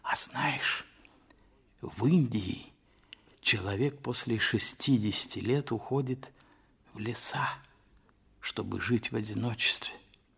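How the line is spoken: Whisper. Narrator (Russian): Толстой сказал почему-то шепотом

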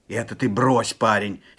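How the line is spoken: Angry shout. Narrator (Russian): сердито вскричал Степан

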